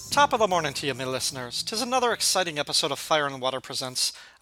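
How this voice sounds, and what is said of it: Silly put-on Irish accent. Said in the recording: “the silly accent ... St. Patrick's Day ... how did my grandparents talk like that?”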